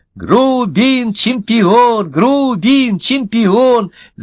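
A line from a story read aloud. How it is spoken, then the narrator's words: Cheering shout. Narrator (Russian): закричал другой зефир из группы поддержки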